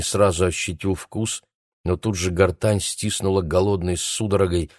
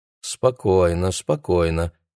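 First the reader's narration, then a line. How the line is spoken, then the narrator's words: Nurse's tired voice. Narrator (Russian): продолжала сестра усталым голосом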